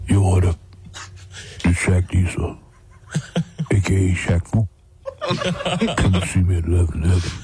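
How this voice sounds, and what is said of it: Imitates another person's voice. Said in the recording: “your Shaq impression ... I think it's pretty good ... It's a good one. It's a good impression.”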